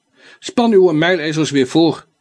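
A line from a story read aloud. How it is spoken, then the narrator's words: Calling out to carter. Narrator (Dutch): riep Don Quichot de voerman toe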